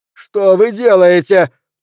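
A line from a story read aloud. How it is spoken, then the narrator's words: Shrill scream. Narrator (Russian): пронзительно закричал Пелвис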